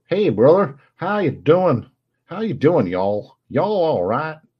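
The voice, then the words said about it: English speaker's put-on American accent. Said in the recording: “I can talk in American if you want me to. ... Can I talk in American? ... That's about as far as my American accent goes. And I do apologize for it.”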